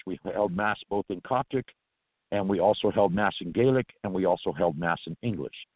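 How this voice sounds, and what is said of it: Irish-influenced accent. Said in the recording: “Gaelic, of course, is the natural Irish, which is where my accent derives from”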